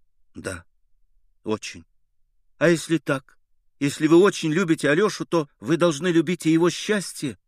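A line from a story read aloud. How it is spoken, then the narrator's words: Timid whisper. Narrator (Russian): прибавила она робко и шепотом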